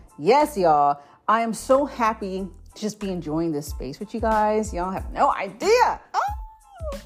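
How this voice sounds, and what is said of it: Excited, enthusiastic voice. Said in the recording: “Y'all can hear the excitement in my voice.”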